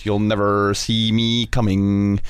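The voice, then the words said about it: Mandarin impression, robotic vocoder-like, stretched R's. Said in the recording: “The accent, though, the accent that he puts on, I'm still not sure what it is ... Sounds a little bit like Stephen Hawking ... a little bit of a kind of an automated vocoder ... sort of the extending R's”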